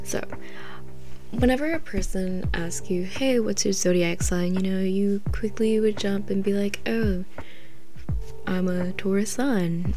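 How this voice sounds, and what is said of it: Deep voice, Southern US accent. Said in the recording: “if my voice is too deep, or you know, if I sound too country, too southern. I'm from the south.”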